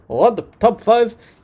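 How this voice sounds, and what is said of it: Put-on Spanish accent. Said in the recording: “in my beautiful Spanish accent”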